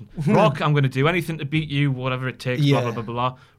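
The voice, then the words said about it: Steve Austin impression. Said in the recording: “Austin was like ... I'm going to do that impression.”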